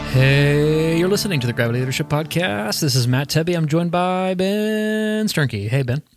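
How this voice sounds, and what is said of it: Sing-songy radio announcer voice. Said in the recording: “what's this voice we're doing here? ... I'm like a sing songy ... radio voice. I'm trying out a radio voice.”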